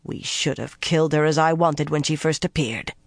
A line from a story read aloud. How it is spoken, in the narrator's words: spat